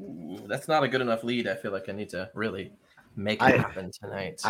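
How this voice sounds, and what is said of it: Usual voice. Nothing is said of it.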